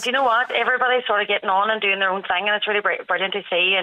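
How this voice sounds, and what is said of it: Strong Derry Northern Irish accent. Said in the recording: “you're pure Derry, pure Derry... the Derry accent is quite strong”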